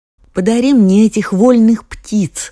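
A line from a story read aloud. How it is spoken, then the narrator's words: Queen's exclamation. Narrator (Russian): воскликнула королева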